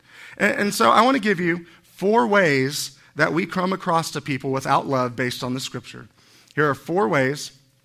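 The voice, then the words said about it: Slightly hoarse, strained voice. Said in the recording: “I'm kind of losing my voice just a little.”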